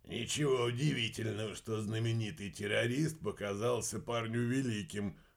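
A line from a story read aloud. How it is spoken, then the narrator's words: Snorting. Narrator (Russian): хмыкнул Горшок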